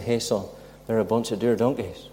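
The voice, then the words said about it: Imitated Ballymena accent. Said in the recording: “his Ballymena accent, he'd say”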